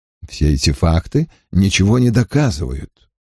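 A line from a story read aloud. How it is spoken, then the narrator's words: Less calm objection. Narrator (Russian): уже не так спокойно возразил Ллойд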